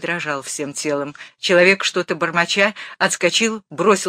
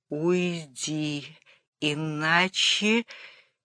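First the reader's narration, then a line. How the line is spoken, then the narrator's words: Strained, quiet. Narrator (Russian): Батурин трудно и тихо сказал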